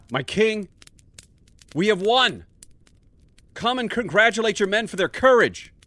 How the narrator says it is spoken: yelled

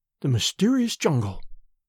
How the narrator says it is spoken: she murmured

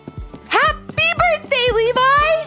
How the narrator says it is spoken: exclaimed Ivy

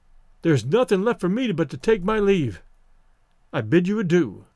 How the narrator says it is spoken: he stammered

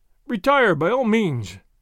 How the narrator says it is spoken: one of his friends cried

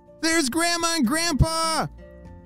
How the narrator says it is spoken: shouted Ellie

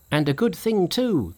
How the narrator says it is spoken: they said

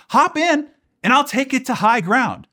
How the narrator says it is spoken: The man in the powerboat called out to Bob

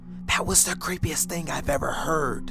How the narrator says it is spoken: My friend Lily whispered

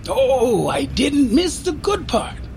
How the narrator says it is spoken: exclaimed Michaela

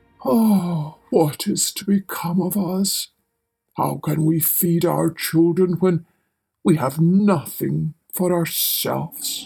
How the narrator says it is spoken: worrying about his problems, he sighed and said

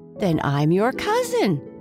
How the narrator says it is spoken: cried the other

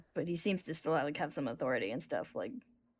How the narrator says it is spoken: Envy grumbles because he always grumbles

